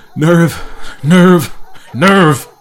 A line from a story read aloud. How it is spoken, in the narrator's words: he panted as he dashed along